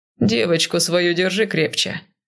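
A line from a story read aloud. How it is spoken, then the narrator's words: Calm, resigned advice. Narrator (Russian): уже спокойно, с какой-то обреченностью посоветовал Безликий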